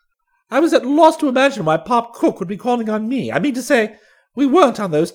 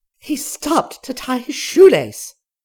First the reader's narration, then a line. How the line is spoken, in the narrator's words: she cried gaspingly as before